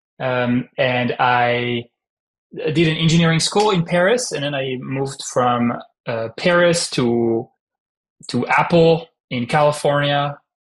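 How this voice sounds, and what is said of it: Heavy French accent. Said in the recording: “I'm French, as you can hear from my heavy French accent that is still there after 12 years in the US”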